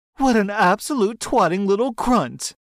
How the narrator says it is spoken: in a voice that sounds similar to the Queen

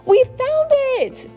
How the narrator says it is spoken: they cried

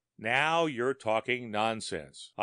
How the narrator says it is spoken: I said with an attempt at a chuckle

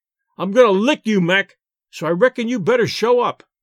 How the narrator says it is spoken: shouted the Rube

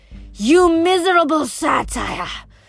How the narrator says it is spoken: She snarled

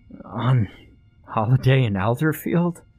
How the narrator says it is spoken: chuckled the man

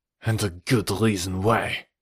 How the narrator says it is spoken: growled Jean-Noir

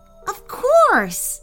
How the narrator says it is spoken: Aishank exclaimed

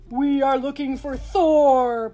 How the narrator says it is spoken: boomed the leader of the frost giants, who was also the biggest

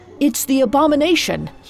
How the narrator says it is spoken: he shouted

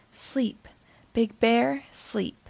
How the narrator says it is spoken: He leaned to the earth and softly sighed

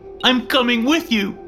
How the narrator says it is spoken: he cried

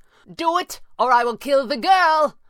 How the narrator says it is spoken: Pavli cried, furious

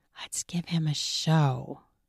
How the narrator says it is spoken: I whispered

